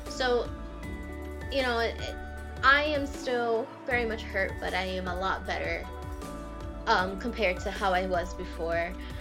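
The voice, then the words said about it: Cracking, emotional voice. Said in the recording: “if my voice is a little cracky right now because it is still an emotional thing to talk about”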